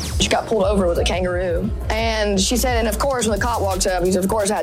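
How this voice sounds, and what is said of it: Thick Southern accent. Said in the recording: “That is an accent. ... It really is a thick accent ... Thick accent.”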